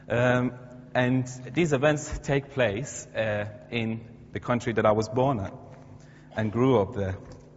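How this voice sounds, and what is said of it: Iranian-accented English. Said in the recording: “I'm from Iran, or you can probably tell from my accent.”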